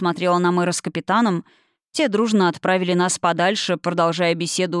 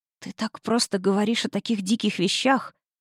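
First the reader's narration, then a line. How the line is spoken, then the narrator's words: Whisper. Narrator (Russian): прошептала я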